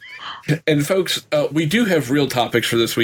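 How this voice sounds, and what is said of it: Usual voice. Nothing is said of it.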